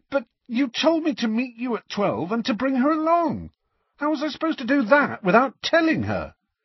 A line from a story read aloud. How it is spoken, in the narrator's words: spluttered Harry